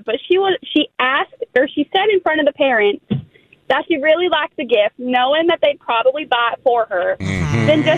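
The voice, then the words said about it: Southern US Texas accent. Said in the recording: “Your accent is getting me... Where did that Southern Belle charm come from out of nowhere?... I'm from down south. I'm from like the Texas area.”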